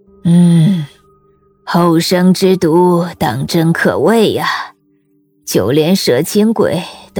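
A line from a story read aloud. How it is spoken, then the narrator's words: Old woman's admiring sigh. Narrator (Chinese): 刘奶奶叹了口气，颇有些赞叹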